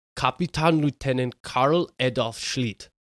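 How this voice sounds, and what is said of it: Put-on German accent. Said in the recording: “Your German accent is incredible.”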